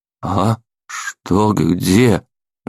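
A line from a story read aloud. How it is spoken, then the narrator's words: Pitiful confused mumble. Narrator (Russian): Жалко промямлил я, не разумея, что произошло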